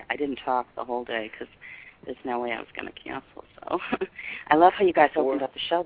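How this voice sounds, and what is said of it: Congested voice with a cold. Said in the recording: “I have a cold too”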